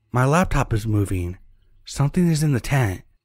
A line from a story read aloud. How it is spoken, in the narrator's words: my girlfriend started exclaiming